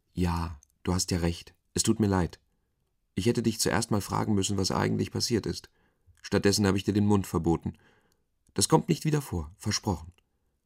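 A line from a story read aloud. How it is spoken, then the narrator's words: Plain. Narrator (German): sagte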